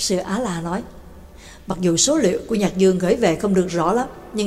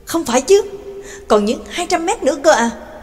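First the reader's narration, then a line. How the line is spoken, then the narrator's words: Astonished exclamation. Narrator (Vietnamese): Nhạc Dương kinh ngạc kêu lên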